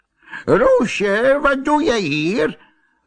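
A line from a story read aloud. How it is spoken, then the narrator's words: Old man calling out. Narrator (Dutch): riep de oude man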